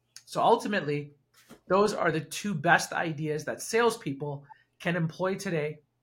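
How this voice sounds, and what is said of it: Voice going hoarse. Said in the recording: “I'm losing my voice ... dying here ... I'm losing my voice.”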